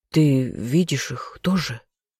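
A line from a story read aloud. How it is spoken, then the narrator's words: Whisper of injured stranger. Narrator (Russian): шептал побитый незнакомец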